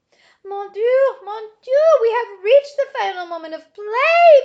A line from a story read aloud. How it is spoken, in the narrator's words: Bismarck shouted